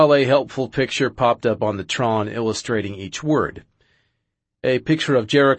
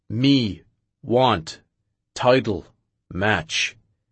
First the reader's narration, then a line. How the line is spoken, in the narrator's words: I told him very slowly